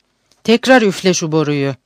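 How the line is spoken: Harsh voice. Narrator (Turkish): Abuzer Reis sert bir sesle şunu söyledi

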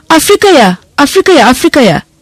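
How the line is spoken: Shouting in unison. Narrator (Turkish): diye hep bir ağızdan bağırırlarken

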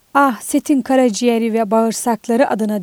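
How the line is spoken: Exclaiming. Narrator (Turkish): diye haykırdı

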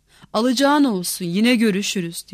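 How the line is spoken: Grumbling. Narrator (Turkish): Tilki homurdanarak

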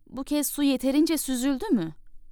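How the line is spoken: Princess, glum displeased voice. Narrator (Turkish): Prenses keyifsiz bir sesle

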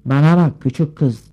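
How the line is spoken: Grumpy, cross voice. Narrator (Turkish): diye aksi bir sesle söze başladı

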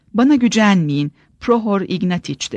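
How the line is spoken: Plain. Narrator (Turkish): dedi

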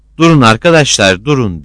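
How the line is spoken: Shouted with full force. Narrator (Turkish): diye var gücüyle bağırdı

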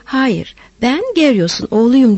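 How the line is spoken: Asked laughing. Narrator (Turkish): diye sormuş, Tanyos da gülerek

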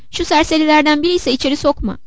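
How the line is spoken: Shouting. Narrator (Turkish): diye bağırıyordu

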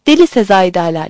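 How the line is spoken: Fearful shouting. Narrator (Turkish): diye bağırdım ama korkudan bağırıyordum

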